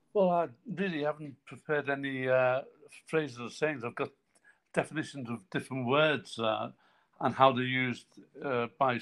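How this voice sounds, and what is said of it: Scouse Liverpool accent. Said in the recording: “your Scouse accent”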